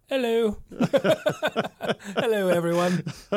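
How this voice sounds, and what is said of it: Put-on British accent. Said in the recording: “British Boomer is with us today ... That's about all I can do in British accent”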